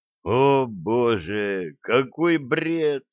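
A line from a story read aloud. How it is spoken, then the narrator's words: Moaning. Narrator (Russian): простонал Блад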